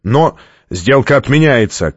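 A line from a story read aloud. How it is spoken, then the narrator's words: Shouted. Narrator (Russian): крикнул Стратмор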